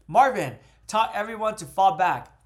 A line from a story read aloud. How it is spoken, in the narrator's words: Tartarus yelled into the voice chat